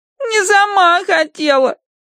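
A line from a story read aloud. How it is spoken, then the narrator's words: Nasal, tearful. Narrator (Russian): прогундосила Агнес сквозь слезы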